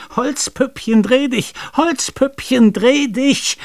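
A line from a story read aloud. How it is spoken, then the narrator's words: Shrill shriek with gruesome laughter. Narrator (German): grausig dazwischen lachend schrie er in schneidendem Ton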